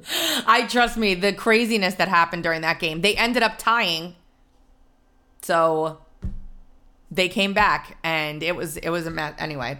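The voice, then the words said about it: Hoarse, strained voice. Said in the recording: “my voice sounds like this today, because I was screaming my head off like a lunatic”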